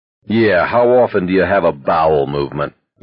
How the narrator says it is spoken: Baker said dryly

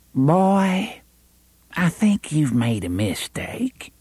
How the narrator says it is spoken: said in a kindly voice

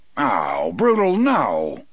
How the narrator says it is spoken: Dean exclaimed

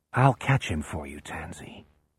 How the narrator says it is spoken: In her ear, Jack whispers

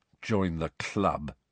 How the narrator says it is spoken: said Harry bitterly

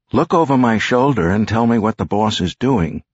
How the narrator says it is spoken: Rosie said

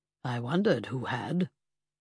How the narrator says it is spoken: my godfather murmured

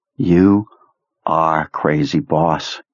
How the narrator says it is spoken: added in a mournful voice

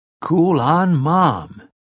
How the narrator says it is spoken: the young man exclaimed

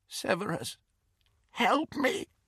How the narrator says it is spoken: the woman said, in a cracked and terrified voice

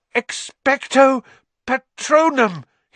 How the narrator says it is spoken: he gasped

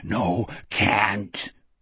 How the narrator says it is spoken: Wolf rasped

